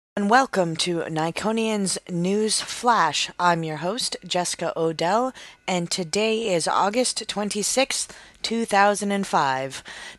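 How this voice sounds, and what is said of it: Congested voice from a cold. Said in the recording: “I have a head cold.”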